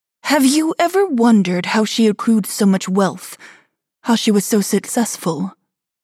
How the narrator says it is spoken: Vivian asked

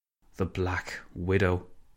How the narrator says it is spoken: Cameron sighed

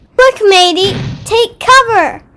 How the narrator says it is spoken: he called out to his sister

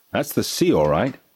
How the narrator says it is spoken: said Uncle Pete sternly

